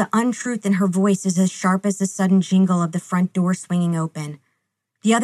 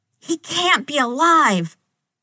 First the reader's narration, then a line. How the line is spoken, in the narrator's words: head spinning, Sam starts to shout